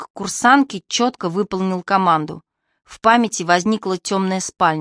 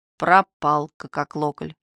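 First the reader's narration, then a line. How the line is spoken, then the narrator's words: Gloomy mumble. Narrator (Russian): Мрачно промычал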